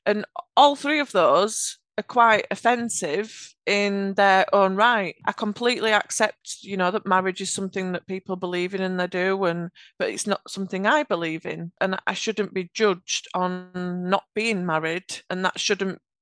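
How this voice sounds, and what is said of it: Yorkshire English accent. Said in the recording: “I have a Yorkshire accent”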